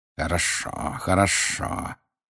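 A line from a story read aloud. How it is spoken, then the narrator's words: Hissing. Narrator (Russian): прошипел снег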